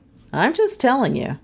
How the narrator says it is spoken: Doan said

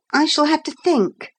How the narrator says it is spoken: he added desperately

